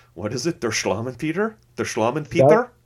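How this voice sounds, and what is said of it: Put-on German accent. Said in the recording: “you gotta say Slovenly Peter in your German accent ... Pretty good”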